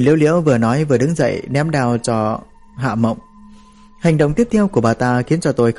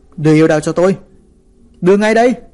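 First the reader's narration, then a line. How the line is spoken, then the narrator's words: Shouting. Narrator (Vietnamese): Hạ Mộng hét lên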